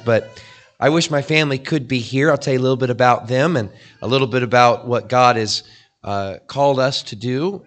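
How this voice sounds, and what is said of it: Hoarse, partly lost voice. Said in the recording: “I lost my voice last week, and it's not quite back. I'm still trying to fight that”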